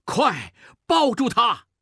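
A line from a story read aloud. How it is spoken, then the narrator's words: Shouting. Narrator (Chinese): 孟梅喊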